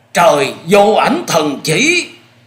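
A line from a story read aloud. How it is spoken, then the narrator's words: Wailing cries. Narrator (Vietnamese): rú lên những tiếng thảm thiết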